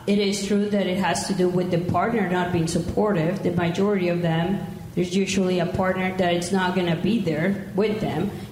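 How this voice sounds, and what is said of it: Mexican accent. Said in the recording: “I'm Mexican, if my accent didn't give me away.”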